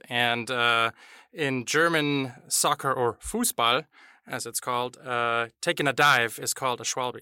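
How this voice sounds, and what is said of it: German accent. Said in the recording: “I'm from Germany, hence my lovely accent.”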